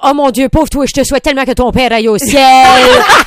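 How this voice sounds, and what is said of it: Heavy put-on accent, mock-sad. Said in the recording (French): “un gros accent qui apparaît dans les moments tristes, mais toujours un gros accent ... Tu te ramasses avec des gros accents.”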